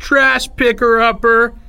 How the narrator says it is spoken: Someone in the back shouted

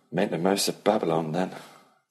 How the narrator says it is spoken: Ellie said dryly

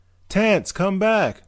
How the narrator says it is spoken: Dorley shouted

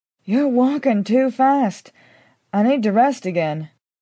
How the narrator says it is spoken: said, panting

